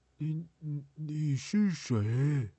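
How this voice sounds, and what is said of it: Quiet, trembling, stammering voice. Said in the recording (Chinese): “发着抖， 小声地问”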